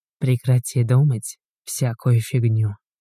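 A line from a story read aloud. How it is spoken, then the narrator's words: Whisper. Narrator (Russian): шепнул ей Игорь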